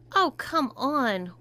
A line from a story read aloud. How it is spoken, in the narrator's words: whined Tom